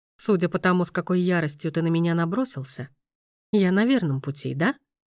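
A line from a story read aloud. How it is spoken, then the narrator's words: Plain. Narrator (Russian): спросил он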